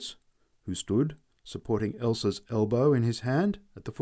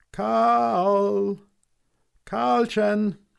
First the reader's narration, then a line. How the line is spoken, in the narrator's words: we cried